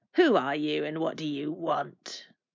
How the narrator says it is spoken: snarled the red mouth

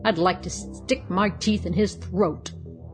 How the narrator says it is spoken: snarled he

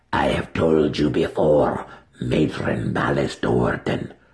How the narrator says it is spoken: the Yawklul snarled with his droopy mouth

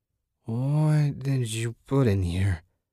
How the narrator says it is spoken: Susan slurred

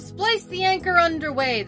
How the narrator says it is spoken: the captain loudly cried

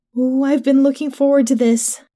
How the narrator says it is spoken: Jen cooed

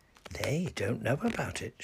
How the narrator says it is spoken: whispered

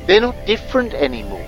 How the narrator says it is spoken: Trask said, his voice tiny but excited in the phone

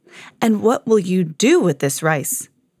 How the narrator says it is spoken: said the Raja with a sigh

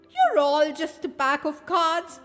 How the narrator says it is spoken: Alice shouted to the Queen's guards

